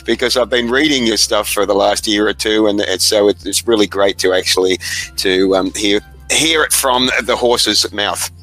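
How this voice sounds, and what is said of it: Australian accent. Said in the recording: “It's very nice to very nice to hear an Australian accent.”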